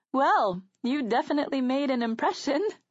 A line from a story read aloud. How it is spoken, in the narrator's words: Serena laughed alongside us